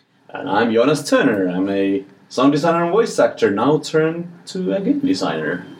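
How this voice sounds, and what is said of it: Smooth radio announcer voice. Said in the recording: “You can tell you're a voice actor... Went straight into radio voice.”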